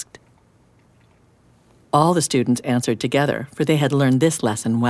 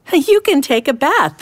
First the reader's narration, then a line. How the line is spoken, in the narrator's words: the students laughed